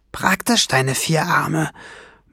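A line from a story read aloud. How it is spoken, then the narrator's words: Murmuring. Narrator (German): murmelte sie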